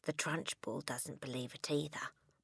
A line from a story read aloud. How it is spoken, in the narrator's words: Matilda whispered